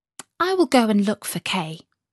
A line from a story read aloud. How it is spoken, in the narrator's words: said Gerda